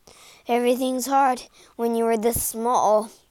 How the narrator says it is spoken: Sam panted

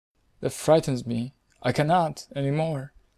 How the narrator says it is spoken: murmured the little prince, now completely abashed

